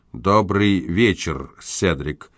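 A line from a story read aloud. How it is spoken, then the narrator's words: Icy tone. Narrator (Russian): ледяным тоном проговорил сэр Генри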